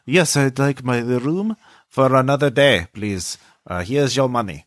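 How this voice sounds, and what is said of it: Distinct put-on German accent. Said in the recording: “It is a very distinct German accent.”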